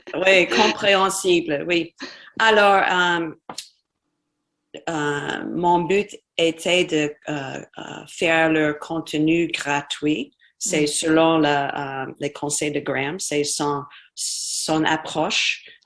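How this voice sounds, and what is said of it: Slight Spanish accent in French. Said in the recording (French): “tu as un petit accent espagnol”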